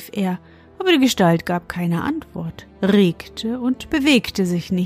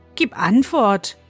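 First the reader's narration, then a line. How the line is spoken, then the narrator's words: Boy calling out. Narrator (German): rief der Junge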